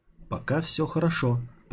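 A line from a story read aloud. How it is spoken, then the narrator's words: Whisper. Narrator (Russian): прошептал Тайнер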